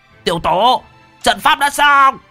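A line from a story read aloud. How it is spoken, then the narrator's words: Old man shouting. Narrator (Vietnamese): Lão hét lên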